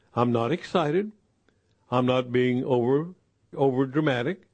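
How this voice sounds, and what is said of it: Speaks slowly and deliberately. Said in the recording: “I'm going to slow down and say that slowly.”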